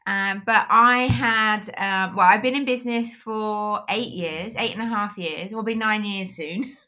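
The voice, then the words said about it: British accent. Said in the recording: “that beautiful accent ... I am from the UK”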